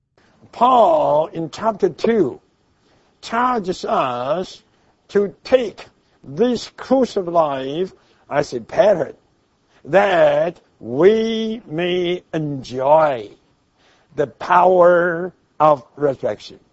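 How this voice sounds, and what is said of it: Chinese accent. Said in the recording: “it's not that easy to understand the first time or two when we hear him say it with his Chinese accent”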